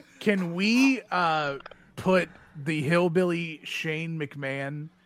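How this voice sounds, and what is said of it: Hillbilly character voice. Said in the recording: “say Shane McMahon in Hillbilly's voice ... You can really tell by his voice the Marlboros really started to kick in”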